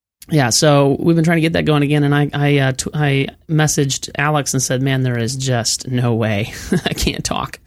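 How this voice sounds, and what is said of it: Slightly hoarse voice. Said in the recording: “my voice just sounds a little hoarse.”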